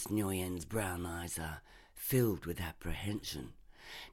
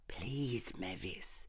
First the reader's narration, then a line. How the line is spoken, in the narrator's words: Nurse Nguyen whispers